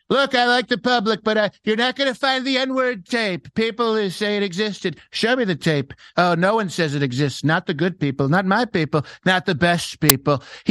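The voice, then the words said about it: Imitates another person's voice. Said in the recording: “You do incredible impressions ... your Trump impression ... it was sounded a little bit like the skipper”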